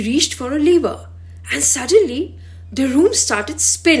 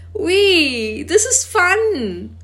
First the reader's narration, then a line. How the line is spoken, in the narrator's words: They both laughed and shouted